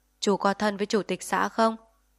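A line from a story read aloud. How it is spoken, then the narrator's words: Cold. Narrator (Vietnamese): lạnh lùng bảo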